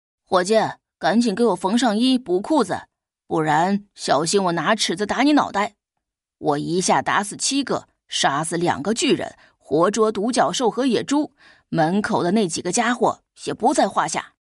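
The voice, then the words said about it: Loud, booming voice. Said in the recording (Chinese): “用洪亮的声音说起话来”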